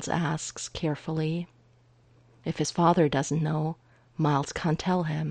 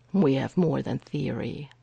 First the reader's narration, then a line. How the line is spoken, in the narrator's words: Errol says grimly